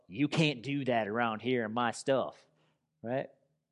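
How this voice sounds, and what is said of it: Put-on Southern accent. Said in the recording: “That was a Southern accent”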